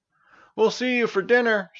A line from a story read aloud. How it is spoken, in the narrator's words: shouted Stavius